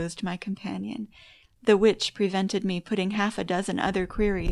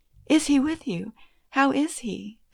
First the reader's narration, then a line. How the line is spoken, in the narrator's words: asked eagerly, as his existence was recalled to my memory